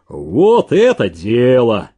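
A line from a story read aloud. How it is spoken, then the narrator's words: Familiar booming bass. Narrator (Russian): опять прогудел знакомый Зеленину бас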